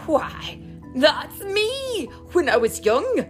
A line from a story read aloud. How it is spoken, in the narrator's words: he gasped